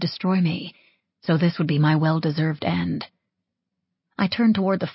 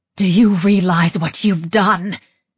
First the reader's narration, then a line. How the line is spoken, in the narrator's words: Rebecca shrieked in my face